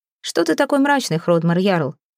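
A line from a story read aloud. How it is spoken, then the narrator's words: Mocking question. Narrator (Russian): насмешливо спросил Асвальд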